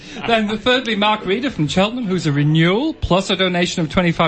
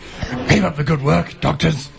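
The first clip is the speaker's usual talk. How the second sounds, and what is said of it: Cartoon dog voice. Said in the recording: “the worst ever dog impression. It's almost like Ruby-Doo. ... Scooby-Doo.”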